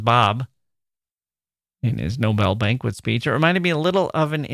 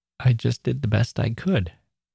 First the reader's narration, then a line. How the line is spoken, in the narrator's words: he said, in a choked up voice